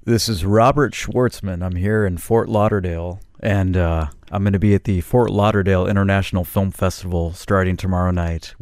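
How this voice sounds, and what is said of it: Radio announcer voice. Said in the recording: “radio voice ... That's a pretty great radio voice.”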